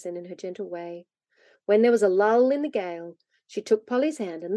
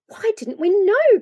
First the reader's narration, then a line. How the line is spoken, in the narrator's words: cried the children at last